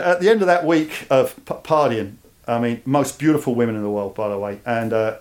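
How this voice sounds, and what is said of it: Cockney English accent. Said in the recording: “there's no Cockney”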